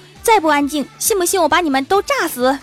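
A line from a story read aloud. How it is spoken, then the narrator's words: Shouting threat. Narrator (Chinese): 化学老师喊道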